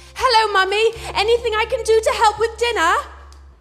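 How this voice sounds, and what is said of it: Posh British accent. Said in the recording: “grind that regional accent out of you ... we developed two accents. We had one for inside ... speaking posh”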